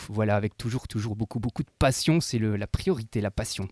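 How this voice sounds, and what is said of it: Belgian French accent. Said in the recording (French): “ton petit accent, tu es belge”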